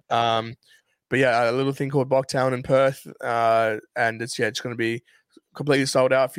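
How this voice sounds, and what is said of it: South African accent with Australian influence. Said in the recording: “I'm a South African who've been living in Australia for way too long, hence my accent”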